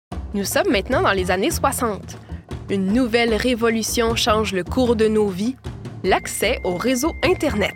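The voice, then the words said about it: Quebec French accent. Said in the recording (French): “Raconté avec un bel accent québécois.”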